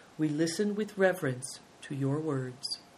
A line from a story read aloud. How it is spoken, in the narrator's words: The prince of the Belin Mongols bowed slightly and said in a low voice